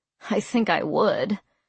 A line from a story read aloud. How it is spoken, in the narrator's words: I muttered under my breath without thinking